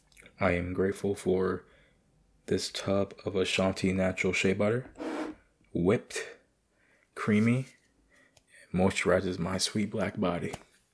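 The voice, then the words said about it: Raspy voice. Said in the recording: “my voice is sounding very raspy”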